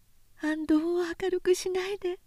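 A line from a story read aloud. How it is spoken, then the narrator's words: Whisper. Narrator (Japanese): とささやき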